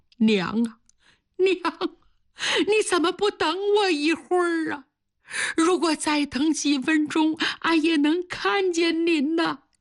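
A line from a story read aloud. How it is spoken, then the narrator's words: Loud sobbing. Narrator (Chinese): 他抱着刚刚咽气的娘放声大哭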